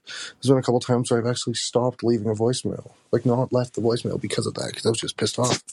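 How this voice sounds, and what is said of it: Tired, worn-out sounding voice. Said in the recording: “You sound like shit ... you sound like a rundown dude”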